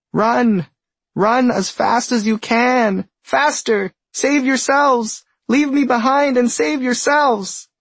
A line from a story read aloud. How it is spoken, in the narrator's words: a turtle, who screams